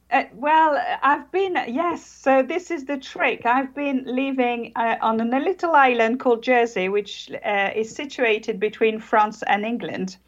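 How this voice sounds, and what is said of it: British-sounding accent from French speaker. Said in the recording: “we hear the accent ... I am actually French ... But you sound British, though.”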